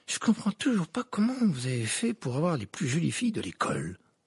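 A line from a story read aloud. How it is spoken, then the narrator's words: Muttered. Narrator (French): marmonna Dean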